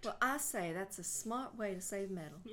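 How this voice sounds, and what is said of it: Put-on Southern US accent. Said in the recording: “you can't do a southern accent. I was like, I thought I could do that one.”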